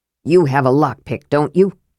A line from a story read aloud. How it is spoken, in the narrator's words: Flint growled